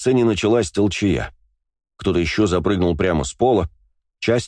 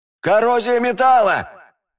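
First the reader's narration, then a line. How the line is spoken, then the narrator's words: Tall young man yelling. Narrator (Russian): заорал потлатый высокий парень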